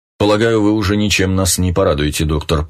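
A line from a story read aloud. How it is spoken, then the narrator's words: Grumbling. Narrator (Russian): проворчал штандартенфюрер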